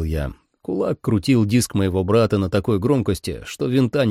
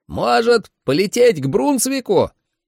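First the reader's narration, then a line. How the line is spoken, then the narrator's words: Shouted. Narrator (Russian): крикнул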